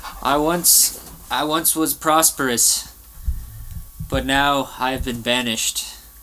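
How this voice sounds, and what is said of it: Canadian or American accent. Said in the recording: “You seem to have a Canadian or maybe American accent.”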